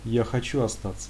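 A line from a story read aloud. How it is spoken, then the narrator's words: Quiet child. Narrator (Russian): тихонько произнес сын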